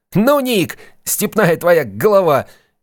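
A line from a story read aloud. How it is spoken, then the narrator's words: Suppressing laughter. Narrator (Russian): Сид с явным трудом сдерживался, чтобы не рассмеяться в голос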